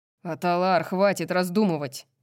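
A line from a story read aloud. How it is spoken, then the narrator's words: Growling. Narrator (Russian): прорычал Баксиан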